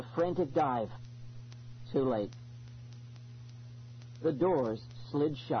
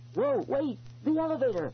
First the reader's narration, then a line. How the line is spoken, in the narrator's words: I cried